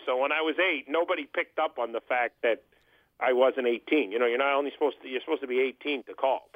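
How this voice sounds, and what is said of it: Very deep male voice. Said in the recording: “my very deep voice.”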